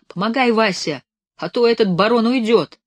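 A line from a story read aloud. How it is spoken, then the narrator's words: Shouting. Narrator (Russian): кричал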